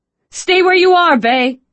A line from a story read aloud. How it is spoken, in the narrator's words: Sydney yelled